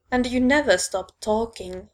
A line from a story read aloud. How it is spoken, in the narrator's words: Lando growls